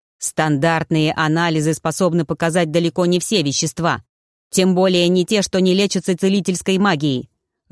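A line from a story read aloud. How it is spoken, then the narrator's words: Growled. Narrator (Russian): рыкнул Тьер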